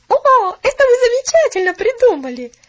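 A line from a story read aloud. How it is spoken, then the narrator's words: Cheerful, sensible exclamation. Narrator (Russian): Весело, но рассудительно воскликнула Поллианна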